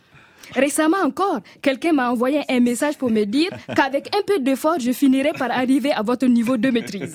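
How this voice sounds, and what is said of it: Burkinabe West African French accent. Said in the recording (French): “j'avais un accent... je vivais à Ouagadougou, un coin où tout le monde parle comme moi... je parlais bizarrement”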